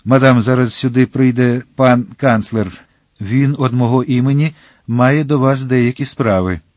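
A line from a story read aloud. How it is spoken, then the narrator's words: Agitated, broken voice. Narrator (Ukrainian): він сказав схвильованим, уривчастим голосом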